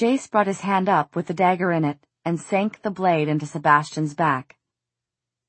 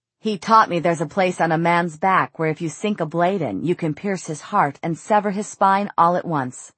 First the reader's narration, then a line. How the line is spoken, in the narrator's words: Sebastian had said